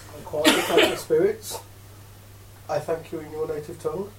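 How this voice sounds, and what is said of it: Put-on Russian accent. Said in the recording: “In a Russian accent.”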